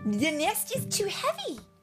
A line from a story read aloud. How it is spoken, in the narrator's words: Lily cried